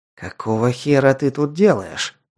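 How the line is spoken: Angry hiss. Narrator (Russian): злобно прошипел Ал

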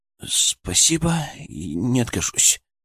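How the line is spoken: Muttered. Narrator (Russian): пробормотал он

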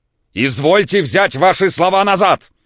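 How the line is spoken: Shouted. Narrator (Russian): крикнул Самойленко

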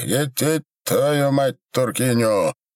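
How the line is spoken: Roaring Cossack voice. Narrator (Russian): проревел казачий голос

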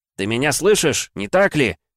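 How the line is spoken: Shout into water. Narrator (Russian): крикнул Игрорыцарь в воду

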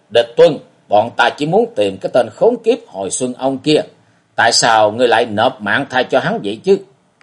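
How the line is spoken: Furious shout. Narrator (Vietnamese): đầy vẻ căm tức, quát lên

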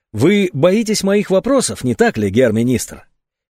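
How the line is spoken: Calm remark. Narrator (Russian): Димитров спокойно заметил

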